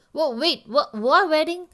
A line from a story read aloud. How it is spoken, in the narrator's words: I frowned, spluttering out the words